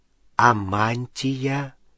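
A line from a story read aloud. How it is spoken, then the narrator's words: Slow speech. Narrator (Russian): медленно проговорил Рон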